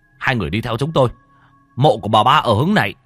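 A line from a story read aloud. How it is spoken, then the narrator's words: Tall man shouting. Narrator (Vietnamese): Người đàn ông cao lớn lúc nãy mới hét lên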